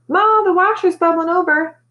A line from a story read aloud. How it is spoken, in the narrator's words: Montana wail